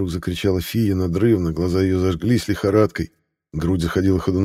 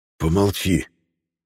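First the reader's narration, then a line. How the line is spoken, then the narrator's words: Hissed. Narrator (Russian): прошипел Юлиан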